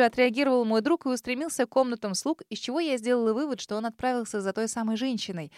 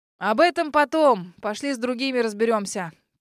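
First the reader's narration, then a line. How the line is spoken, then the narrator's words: Loud grumble. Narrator (Russian): пробурчал мистер Бакстер, громко проговорив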